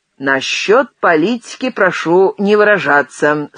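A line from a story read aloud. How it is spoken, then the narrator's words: Stern warning. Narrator (Russian): строго предупредил Кулек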